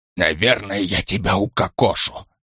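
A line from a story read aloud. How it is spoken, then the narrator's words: Whispered. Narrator (Russian): прошептал Штих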